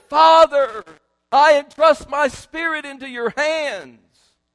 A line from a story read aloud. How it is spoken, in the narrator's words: He shouted